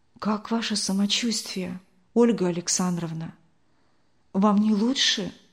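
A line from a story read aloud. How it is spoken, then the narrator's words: Quiet question. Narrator (Russian): тихо спросила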